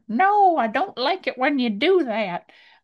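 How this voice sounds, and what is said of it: Old lady voice. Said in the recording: “old lady accent ... my old lady accent. It was a little bit of old man and then old lady accent.”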